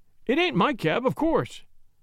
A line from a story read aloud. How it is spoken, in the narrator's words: said Gallagher, with an easy laugh